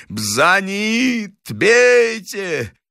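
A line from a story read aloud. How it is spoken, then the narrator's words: High-pitched shouting. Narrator (Russian): кричал высоким голосом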